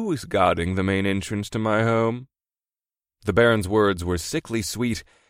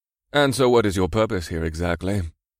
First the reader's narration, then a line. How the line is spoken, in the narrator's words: The Baron asked quickly